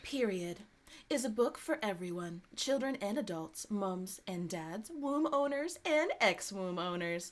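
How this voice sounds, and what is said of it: Put-on radio announcer voice. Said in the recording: “I'm gonna try to use my radio voice.”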